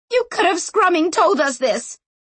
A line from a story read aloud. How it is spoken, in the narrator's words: shouted Berenice